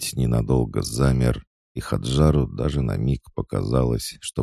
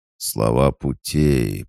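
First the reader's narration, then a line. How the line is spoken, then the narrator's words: Drawling monster. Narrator (Russian): протянул монстр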